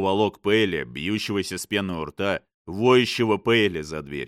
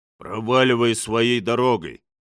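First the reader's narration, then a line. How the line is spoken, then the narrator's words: Grumbling. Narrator (Russian): заворчал Томкин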